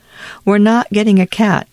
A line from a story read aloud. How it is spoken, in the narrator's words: said Prospero